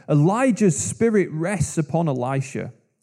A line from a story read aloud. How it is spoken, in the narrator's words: the group of prophets from Jericho saw from a distance what had happened, they exclaimed